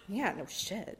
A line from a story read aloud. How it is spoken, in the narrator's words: the guy mutters